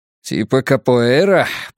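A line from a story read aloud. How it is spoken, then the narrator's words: Grumbling. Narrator (Russian): проворчал Вуко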